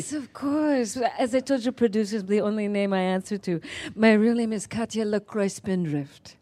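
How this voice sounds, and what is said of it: Vague put-on accent, going in and out. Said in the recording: “My accent is very vague. It's going to go in and out.”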